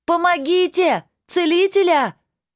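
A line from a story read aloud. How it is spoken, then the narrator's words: Screaming at full voice. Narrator (Russian): Закричала я во всю глотку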